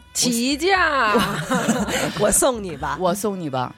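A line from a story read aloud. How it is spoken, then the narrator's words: Smiling. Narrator (Chinese): 冲你微笑说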